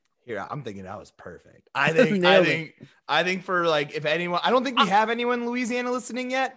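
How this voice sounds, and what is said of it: Usual voice. Nothing is said of it.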